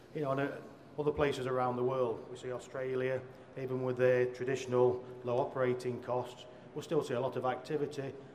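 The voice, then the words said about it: British accent. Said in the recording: “you'll have picked up from my accent, I'm from the UK”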